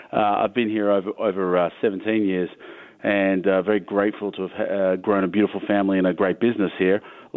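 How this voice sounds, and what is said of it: Foreign accent. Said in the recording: “You can hear it's quite odd to have someone with a foreign accent talking about American export”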